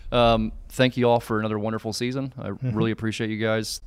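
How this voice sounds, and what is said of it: Choked-up, emotional voice. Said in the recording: “I'm getting all choked up, man. I got to pull myself together here.”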